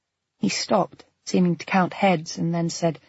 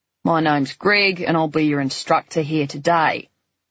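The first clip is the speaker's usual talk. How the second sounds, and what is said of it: Slightly bored Australian accent. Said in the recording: “in a slightly bored Australian accent”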